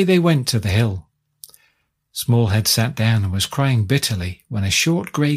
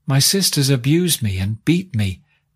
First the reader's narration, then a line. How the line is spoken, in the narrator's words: answered Smallhead